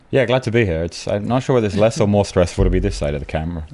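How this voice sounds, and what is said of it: New Hampshire accent. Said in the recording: “our New Hampshire accent sounds like, it's that. ... this is exactly New Hampshire, born and bred.”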